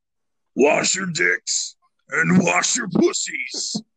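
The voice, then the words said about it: Deep, throat-straining imitated voice. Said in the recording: “this is going to hurt my fucking throat trying to do my Adam D impression. He's got such a deep voice. ... That was a horrible fucking impression. ... It was so bad.”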